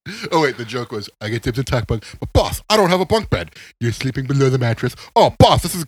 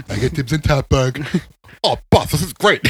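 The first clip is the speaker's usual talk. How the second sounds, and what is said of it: Imitates another person's voice. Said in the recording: “his Rudy impression”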